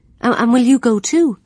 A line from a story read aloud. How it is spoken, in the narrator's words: her mother asked eagerly